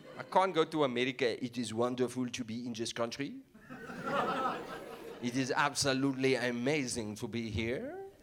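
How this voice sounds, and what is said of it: English accent influenced by Afrikaans. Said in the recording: “I do have a weird accent ... the sound of my accent is very much influenced by Afrikaans ... I sound Afrikaans”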